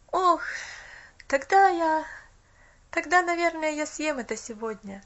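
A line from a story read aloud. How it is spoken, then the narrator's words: Boy sighing. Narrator (Russian): вздохнул мальчик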